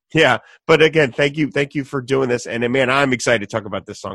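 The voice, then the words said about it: Voice off, sick-sounding. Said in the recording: “my voice is off. I'm in the middle of a cold right now”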